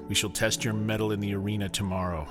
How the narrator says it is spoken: the dragon snarled

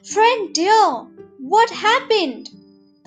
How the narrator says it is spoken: the crow cried

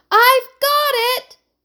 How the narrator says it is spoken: shouted Emily

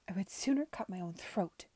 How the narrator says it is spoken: spat

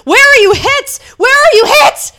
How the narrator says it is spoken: shouting

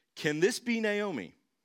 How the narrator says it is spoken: the local women exclaimed

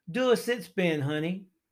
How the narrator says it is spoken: he would shout out to Misty

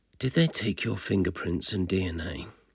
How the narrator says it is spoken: gloomily said in a low voice

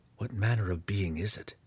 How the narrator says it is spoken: Driz whispered to Belwar

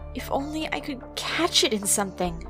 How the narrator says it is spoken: cried

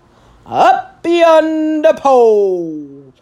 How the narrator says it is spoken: the other shouted

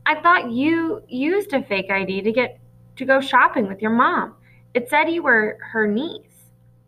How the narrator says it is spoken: Luke said timidly

